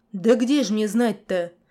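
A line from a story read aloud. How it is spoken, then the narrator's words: Deep bass voice. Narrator (Russian): пробасил мужик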